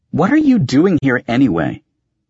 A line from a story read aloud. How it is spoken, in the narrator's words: Agia snapped